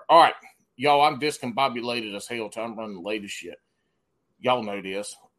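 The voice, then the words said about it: Slight Southern accent. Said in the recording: “I guess I do have a little bit of a southern accent.”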